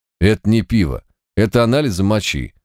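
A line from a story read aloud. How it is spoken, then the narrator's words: Gloomy reply. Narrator (Russian): мрачно ответил Март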